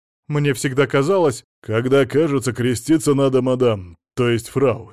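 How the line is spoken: Angry. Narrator (Russian): сердито сказал Сила Игнатьевич

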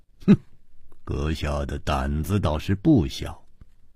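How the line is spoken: Cold tone. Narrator (Chinese): 姬冰燕冷冷地说

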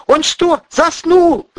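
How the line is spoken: Screaming. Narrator (Russian): завопила Ольга

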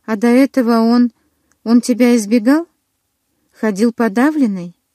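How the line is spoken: Muffled, clipped. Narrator (Russian): Голос Квилла звучал глухо и отрывисто

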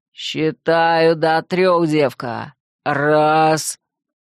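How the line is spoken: Deep bass voice. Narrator (Russian): пробасил

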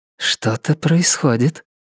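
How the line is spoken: Whisper. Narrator (Russian): шепнула охотница двери

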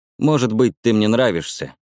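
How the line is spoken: Sigh. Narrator (Russian): вздохнула ведьма

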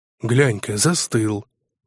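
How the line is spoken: Deep voice from crowd. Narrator (Russian): пробасили в толпе на галерке

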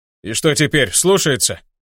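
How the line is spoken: Werewolf's growl. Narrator (Russian): прорычал оборотень

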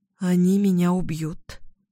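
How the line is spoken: Sigh. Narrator (Russian): вздохнула я

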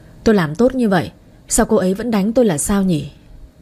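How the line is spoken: Heavy weary sigh. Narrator (Vietnamese): Lâm Phong anh thở dài thườn thượt

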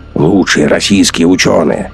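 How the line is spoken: Snort. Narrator (Russian): фыркнул Гумилев

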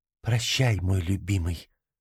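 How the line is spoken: Whispered. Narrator (Russian): прошептала

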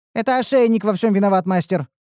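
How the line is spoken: Rapid chatter. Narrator (Russian): затараторила Ниуру

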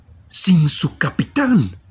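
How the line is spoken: Radiant exclamation. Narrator (Spanish): exclamó Dantès radiante

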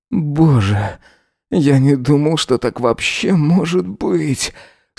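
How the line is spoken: Moaning. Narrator (Russian): стонал Эзра

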